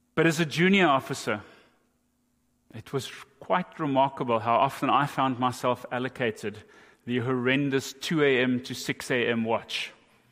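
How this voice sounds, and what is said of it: South African accent. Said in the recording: “I was a navigating officer in the South African Navy. That's the accent that you're hearing.”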